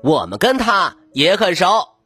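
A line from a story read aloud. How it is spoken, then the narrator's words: Loud. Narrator (Chinese): 植物精灵大声说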